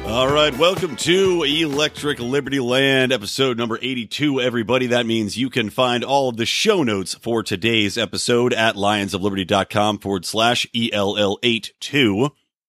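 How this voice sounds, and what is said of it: Sick, unusual-sounding voice. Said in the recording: “you may be able to tell I'm a little under the weather today... being sick and having this crazy voice right now”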